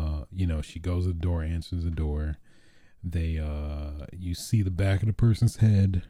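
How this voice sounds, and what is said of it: Usual voice. Nothing is said of it.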